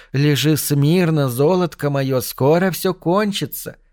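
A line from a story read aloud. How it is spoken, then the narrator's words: Cooing. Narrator (Russian): проворковала она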